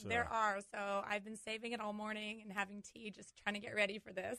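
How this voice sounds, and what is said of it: Hoarse, partly lost voice. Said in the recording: “I apologize for my voice ... and I did lose my voice.”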